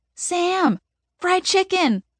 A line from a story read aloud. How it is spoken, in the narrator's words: people shout at me